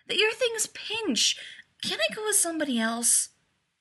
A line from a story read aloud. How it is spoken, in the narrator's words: he whined